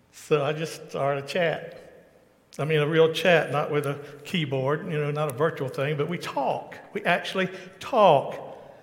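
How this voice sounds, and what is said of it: Thick Southern US accent. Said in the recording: “I have a very thick southern accent. I live near Atlanta, Georgia, USA.”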